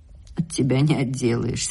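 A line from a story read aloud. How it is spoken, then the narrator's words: Plain. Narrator (Russian): сказала она наконец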